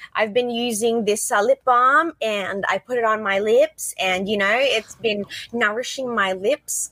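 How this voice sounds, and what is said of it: Australian accent. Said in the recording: “hindi pa nawawala ang Aussie accent.”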